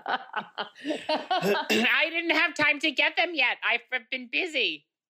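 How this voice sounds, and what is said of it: Very high, sharp, snappy voice. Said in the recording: “my other voice. It's very high. ... It's like Louis Anderson. ... A little sharp, a little snappy.”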